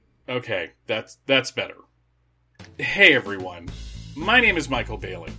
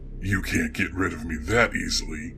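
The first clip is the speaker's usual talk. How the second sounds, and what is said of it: Creepy character voice. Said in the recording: “creepy voice guy”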